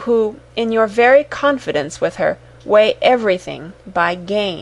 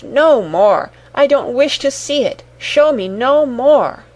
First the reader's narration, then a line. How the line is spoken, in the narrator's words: cried Scrooge